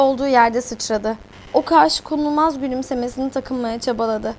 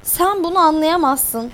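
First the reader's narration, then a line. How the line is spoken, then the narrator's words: Shouting with spite. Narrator (Turkish): diye hınçla bağırdı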